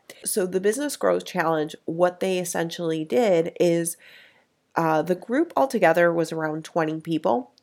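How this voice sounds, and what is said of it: Sick-sounding voice. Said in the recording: “I'm getting super sick ... that's why my voice is different”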